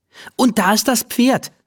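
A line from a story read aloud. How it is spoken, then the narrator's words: Called out. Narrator (German): ruft sie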